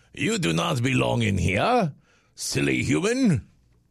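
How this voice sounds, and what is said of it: Put-on French accent, rooster character. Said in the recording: “Why does my rooster have a French accent? ... with the French accent. ... Suddenly red has a French accent now.”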